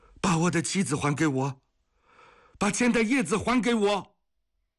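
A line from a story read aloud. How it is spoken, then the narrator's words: Loud yelling. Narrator (Chinese): 岩下大声地叫着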